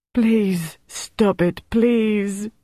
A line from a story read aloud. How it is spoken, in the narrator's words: Gaston moaned